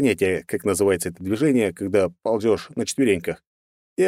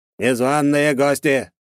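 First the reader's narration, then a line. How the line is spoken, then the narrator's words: Horrible creaking mechanical voice. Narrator (Russian): заскрипел таким ужасным голосом механизм, что за один только этот душераздирающий голос можно было с чистой совестью его убить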